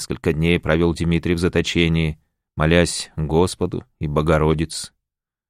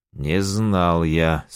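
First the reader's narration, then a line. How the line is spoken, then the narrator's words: Through gritted teeth. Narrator (Russian): сквозь зубы произнес Максимиан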